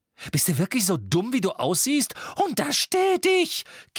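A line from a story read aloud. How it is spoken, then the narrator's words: Shrill squeal. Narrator (German): quiekte Tante Petunia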